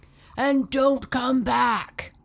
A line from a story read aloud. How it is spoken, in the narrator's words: yelled the giant squid